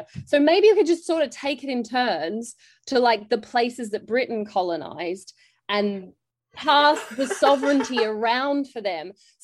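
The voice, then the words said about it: Australian accent. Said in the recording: “You might be able to tell from my accent, I'm actually, like, grew up in Australia.”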